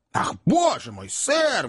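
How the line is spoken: Widow's exclamation. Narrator (Russian): воскликнула вдова

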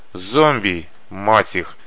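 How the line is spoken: Angry growl. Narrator (Russian): зарычал Паля

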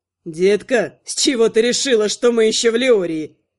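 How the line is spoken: After laughing. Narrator (Russian): Отсмеявшись, проговорил Кондрат

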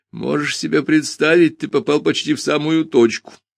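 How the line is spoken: Sudden laugh. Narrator (Russian): неожиданно рассмеялся он

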